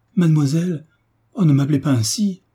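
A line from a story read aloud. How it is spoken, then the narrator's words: Exclaimed. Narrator (French): s'écria Mademoiselle de Beauménil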